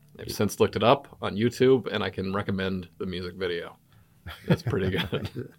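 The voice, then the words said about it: American accent that stands out. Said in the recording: “my accent stands out here. They go, where are you from? And I say, Albuquerque.”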